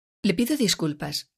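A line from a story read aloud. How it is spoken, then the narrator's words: Neutral tone. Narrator (Spanish): le dice el director con su tono neutral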